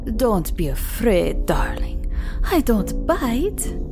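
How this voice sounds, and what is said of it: Unplaceable vaguely Romanian-sounding accent. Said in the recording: “She had some kind of accent that Ashley couldn't place. A poor impression of something Romanian, perhaps.”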